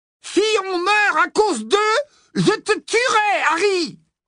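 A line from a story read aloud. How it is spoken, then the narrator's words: Roaring. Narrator (French): rugit la voix de Ron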